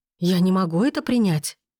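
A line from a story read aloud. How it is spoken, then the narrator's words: Exclamation. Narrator (Russian): воскликнула я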